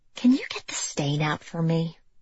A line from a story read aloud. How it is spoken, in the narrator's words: Monica, whispering to her dry cleaner